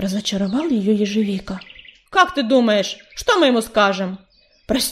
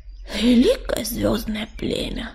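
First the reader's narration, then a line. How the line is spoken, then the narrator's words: Groaning. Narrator (Russian): простонал ежевика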